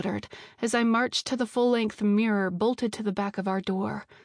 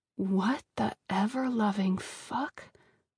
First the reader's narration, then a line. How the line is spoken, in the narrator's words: I breathed